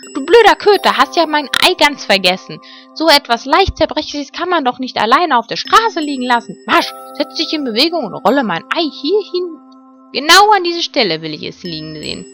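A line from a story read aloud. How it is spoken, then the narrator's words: Indignant shriek. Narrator (German): schrie sie empört auf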